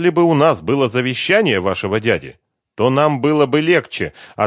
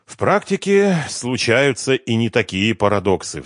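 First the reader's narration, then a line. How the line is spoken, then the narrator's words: Sighing. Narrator (Russian): вздохнул плавник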